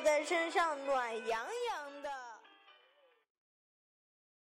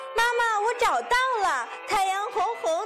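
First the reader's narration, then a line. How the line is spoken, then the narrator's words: Loud shout. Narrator (Chinese): 小兔子……大声叫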